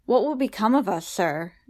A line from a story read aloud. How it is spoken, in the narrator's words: Davy asked, his hands clasped nervously before him